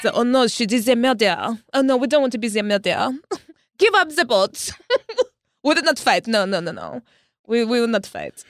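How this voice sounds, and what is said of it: Put-on French accent. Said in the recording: “That's a solid French accent... It's fantastic.”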